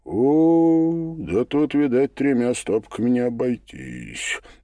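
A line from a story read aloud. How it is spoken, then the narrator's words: Drawling. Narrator (Russian): протянул Лютый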